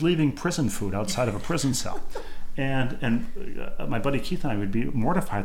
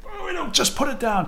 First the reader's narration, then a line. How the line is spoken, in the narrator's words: Mike would yell at her